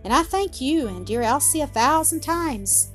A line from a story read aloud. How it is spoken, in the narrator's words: she added, with cordial affection